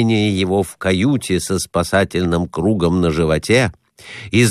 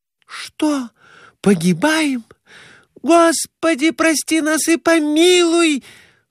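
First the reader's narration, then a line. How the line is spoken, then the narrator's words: Wailing. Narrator (Russian): Завопила Глафира Семеновна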